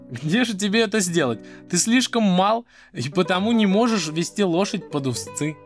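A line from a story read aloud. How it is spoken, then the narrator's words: Laughing father. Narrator (Russian): Отец рассмеялся и сказал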